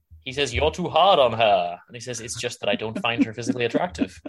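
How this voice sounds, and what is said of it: Matt Berry impression. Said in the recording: “your Matt Berry impression”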